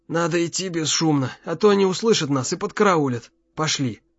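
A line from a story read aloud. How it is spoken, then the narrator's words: Hoarse rasp. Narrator (Russian): прохрипел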